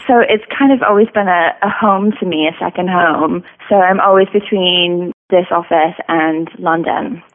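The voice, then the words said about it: Unusual mixed accent. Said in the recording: “I have a very odd accent”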